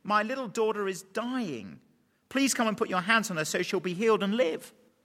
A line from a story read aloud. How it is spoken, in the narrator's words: He pleaded earnestly